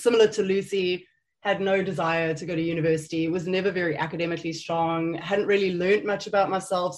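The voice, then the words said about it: South African accent. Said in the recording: “there is an accent. I'm not British or American. I am South African, born and bred.”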